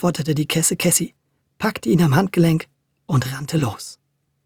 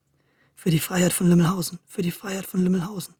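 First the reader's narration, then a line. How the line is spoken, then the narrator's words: Quiet repeated muttering. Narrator (German): murmelte Audencio immer wieder leise vor sich her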